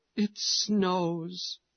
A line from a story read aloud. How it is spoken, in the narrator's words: cries the widow